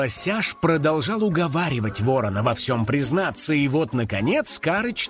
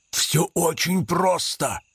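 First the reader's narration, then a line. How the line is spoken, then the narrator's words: Whispered. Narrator (Russian): прошептал ворон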